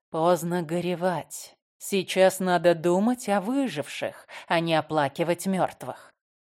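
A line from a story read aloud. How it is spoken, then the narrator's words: Pitying whisper over purring. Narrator (Russian): Жалея ее, урчу с целебной частотой в 24 Гц и одновременно нашептываю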